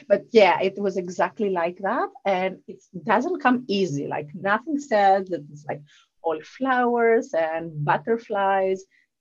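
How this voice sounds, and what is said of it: Southern European accent. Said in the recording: “my lovely Southern European accent”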